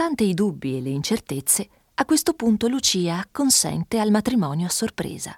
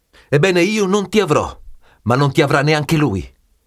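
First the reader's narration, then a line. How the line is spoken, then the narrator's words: Angry shout. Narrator (Italian): Renzo, pieno di ira, grida rivolto a Lucia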